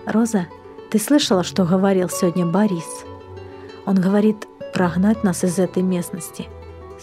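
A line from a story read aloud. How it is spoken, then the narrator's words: Calm. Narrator (Russian): спокойно произнес Иван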